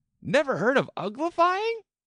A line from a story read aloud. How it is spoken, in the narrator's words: It exclaimed